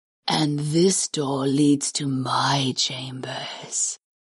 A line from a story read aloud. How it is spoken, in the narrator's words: the horned goddess purred